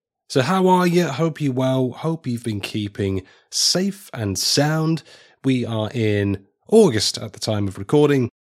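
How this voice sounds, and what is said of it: Congested voice from a cold. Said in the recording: “As you can probably hear in my voice, I've come down with a little bit of a cold, a little bit under the weather”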